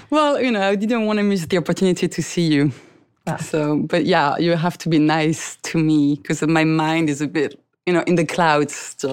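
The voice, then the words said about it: French accent. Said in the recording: “your beautiful accent ... I don't think anybody else from France has been on my show.”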